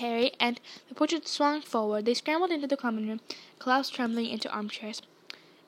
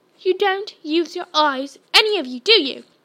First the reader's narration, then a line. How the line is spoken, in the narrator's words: she snapped